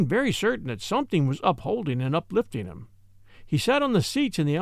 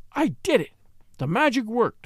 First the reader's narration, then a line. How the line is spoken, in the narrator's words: he cried